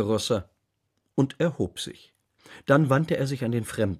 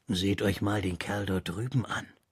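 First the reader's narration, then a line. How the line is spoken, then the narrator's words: Quiet. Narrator (German): sagte Rosser leise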